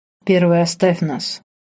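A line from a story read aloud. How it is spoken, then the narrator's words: Hoarse, half-commanding. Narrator (Russian): Хриплым голосом не то попросил, не то приказал Марк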